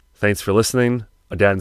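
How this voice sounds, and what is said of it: Sick, rough-sounding voice. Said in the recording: “sorry about my voice. I'm sick as a fucking dog.”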